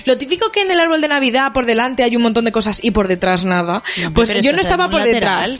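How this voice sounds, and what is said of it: Galician-sounding Spanish accent. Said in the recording (Spanish): “tu hermana es gallega ... Es que es tu típico acento.”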